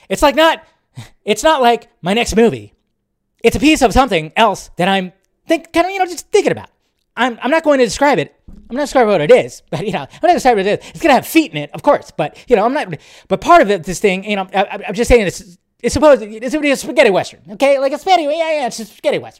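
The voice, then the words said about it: Poor imitation of another person's voice. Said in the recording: “my terrible Tarantino impression”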